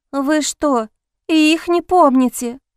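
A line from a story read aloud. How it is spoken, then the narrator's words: Horrified maid's exclamation. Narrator (Russian): В ужасе воскликнула служанка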